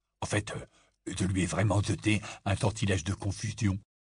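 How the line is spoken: Murmur. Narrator (French): murmura Ron à Harry

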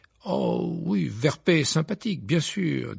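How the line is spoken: Disdainful tone. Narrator (French): dit Percy d'un ton dédaigneux

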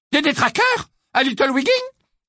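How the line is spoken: Exclaiming. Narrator (French): s'exclama Mrs

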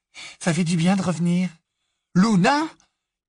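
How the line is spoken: Flustered exclamation. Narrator (French): s'exclama Harry, décontenancé

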